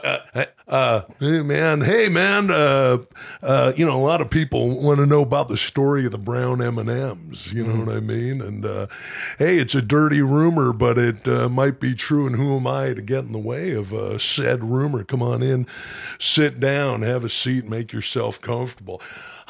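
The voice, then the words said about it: Imitates another person's voice. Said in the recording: “throw some David Lee Roth at ... Underrated impression ... give us some Diamond Dave”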